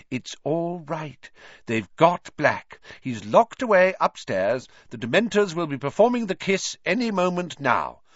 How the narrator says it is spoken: said Madame Pumphrey, soothingly

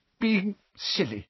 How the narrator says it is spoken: muttered again

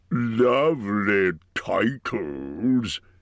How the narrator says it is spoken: sneered the dragon

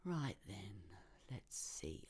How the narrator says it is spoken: I mumbled

